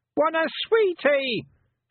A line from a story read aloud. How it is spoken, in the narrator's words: shouted Wentworth on automatic sweetie pilot